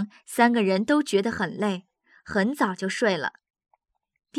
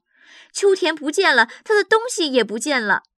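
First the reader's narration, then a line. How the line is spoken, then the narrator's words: Shouting. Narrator (Chinese): 杰夫 大叫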